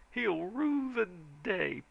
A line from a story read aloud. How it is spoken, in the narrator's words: promised John